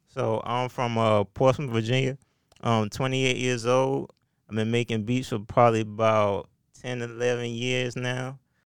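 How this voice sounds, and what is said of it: Heavy Virginia accent. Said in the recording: “You got that Virginia accent, that heavy Virginia accent.”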